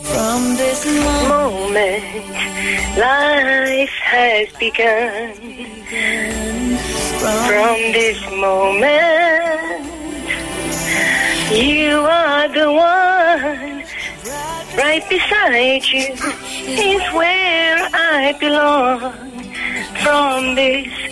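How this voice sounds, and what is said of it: Singing, imitating another person's voice. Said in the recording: “your best Shania impression”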